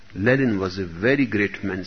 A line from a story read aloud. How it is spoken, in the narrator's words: she said